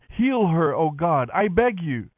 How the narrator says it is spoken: Moses cried out to the Lord

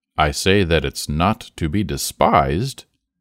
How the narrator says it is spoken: In a weighty tone he said

